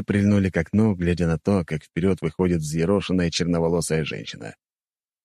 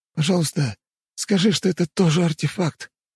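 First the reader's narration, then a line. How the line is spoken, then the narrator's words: Hoarse wheeze. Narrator (Russian): просипел барон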